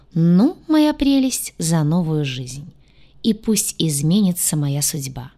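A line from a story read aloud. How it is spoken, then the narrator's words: Said solemnly. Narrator (Russian): торжественно произнесла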